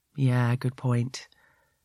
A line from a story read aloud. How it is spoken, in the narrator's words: he says sadly